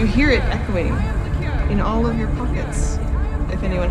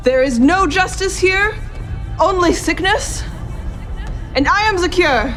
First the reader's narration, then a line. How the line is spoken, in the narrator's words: she yells